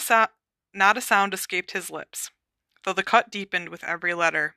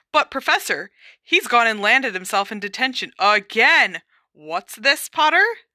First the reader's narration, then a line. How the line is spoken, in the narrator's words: said sharply